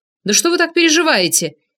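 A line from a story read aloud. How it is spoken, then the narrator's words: Shouted out window. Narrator (Russian): крикнул я в окно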